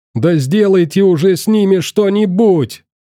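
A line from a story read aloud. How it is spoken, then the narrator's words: Wild bellow. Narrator (Russian): Дурниной заорал Лаврищев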